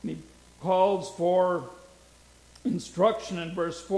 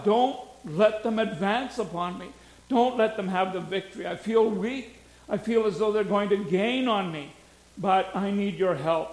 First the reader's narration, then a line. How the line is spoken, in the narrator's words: he pleads to God